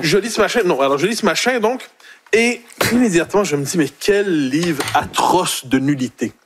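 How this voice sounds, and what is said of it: Strong Québécois French accent. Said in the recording (French): “Il a même retrouvé son accent québécois tellement c'était pas bon”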